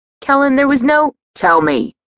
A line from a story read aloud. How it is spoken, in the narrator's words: he yelled